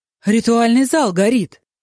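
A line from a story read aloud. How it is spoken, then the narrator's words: Sudden cry. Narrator (Russian): вскрикнул он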